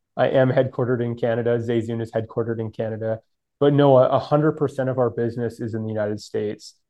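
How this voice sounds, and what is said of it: Canadian accent. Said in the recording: “I do have a Canadian accent.”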